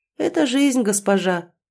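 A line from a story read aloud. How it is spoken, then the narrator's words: Warm, smiling. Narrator (Russian): ласково улыбнулся Эдир, чем-то напоминающий мне старого доброго дядюшку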